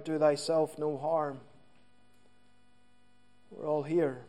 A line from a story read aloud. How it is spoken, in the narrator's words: Paul cries out